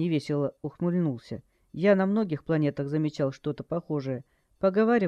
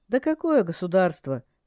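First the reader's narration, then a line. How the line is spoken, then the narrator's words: Scoffing snort. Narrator (Russian): Джай хмыкнул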